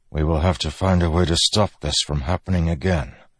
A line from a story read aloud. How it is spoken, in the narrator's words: Dalinar said softly